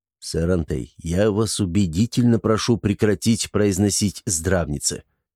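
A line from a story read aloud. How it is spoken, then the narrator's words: Whisper close to ear. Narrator (Russian): прошептал он, наклонившись к самому уху Антона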